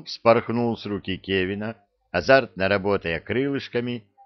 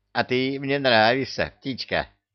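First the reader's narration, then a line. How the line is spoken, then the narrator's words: Laughing. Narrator (Russian): засмеялся Люка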